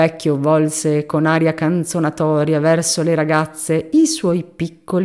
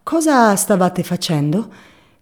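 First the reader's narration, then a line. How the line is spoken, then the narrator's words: Sweet, courteous question. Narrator (Italian): domandò con voce dolce e cortese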